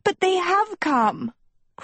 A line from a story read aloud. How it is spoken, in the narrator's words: cried Sophie